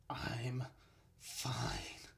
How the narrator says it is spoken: Bo rasped

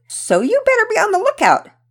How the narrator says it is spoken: Penelope exclaimed

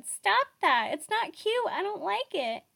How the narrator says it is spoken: Jimmy Fallon in a faux squeamish voice said

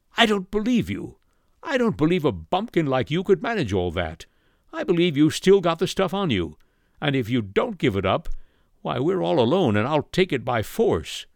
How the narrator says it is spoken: cried

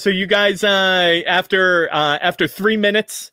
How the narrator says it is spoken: Paulson yells out from the kitchen

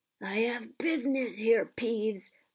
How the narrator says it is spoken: croaked Harry

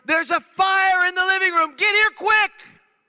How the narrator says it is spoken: our oldest daughter screaming out from the living room

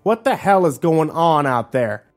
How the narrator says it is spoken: one of the patrons said loudly

